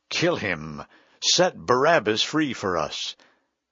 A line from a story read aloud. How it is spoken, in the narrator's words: The whole crowd cried out